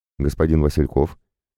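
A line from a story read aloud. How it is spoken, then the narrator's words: Even, level voice. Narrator (Russian): произнесла она ровным голосом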